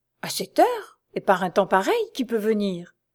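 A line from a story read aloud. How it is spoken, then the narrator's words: Murmured. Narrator (French): murmura-t-il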